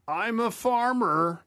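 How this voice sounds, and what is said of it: Impression of Max Yasgur. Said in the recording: “here's another one ... Anybody know who that is? ... It's Max Yasger, who owned the farm in Woodstock.”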